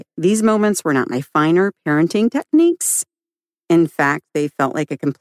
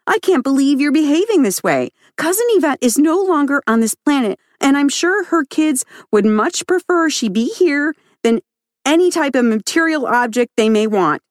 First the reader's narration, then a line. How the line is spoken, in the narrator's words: when I was at my wit's end, I'd lose it and yell back